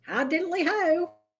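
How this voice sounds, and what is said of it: Ned Flanders line, attempted Australian accent. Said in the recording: “with an Australian accent ... I don't know how to even do an Australian accent.”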